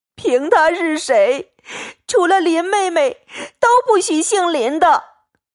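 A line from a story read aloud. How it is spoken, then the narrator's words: Crying. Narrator (Chinese): 宝玉哭道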